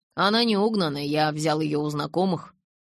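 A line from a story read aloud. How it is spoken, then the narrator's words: Grumbling mutter. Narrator (Russian): буркнул я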